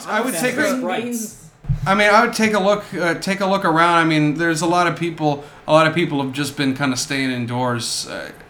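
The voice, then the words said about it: Flat, unenthusiastic imitated voice. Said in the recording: “Why is there absolutely none enthusiasm in your voice? ... my best Jesse Plemons impression. He doesn't have much going on in his voice. ... You just sound like the absence of fun.”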